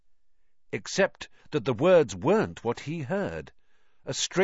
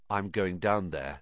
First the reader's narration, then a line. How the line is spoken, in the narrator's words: he said